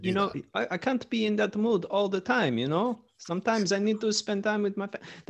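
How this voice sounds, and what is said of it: Put-on Italian accent. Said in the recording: “is he Italian? Are you being Mussolini? ... my accent work”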